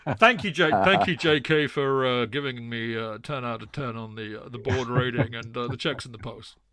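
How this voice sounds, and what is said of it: Imitates another person's voice, drawl. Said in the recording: “a very, very poor Bruce Buck impression. It's actually a very good impression... You got the draw very well.”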